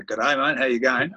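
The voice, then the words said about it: Put-on Queensland Australian accent. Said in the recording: “speaking fully fledged Queensland ... What are you talking like that for”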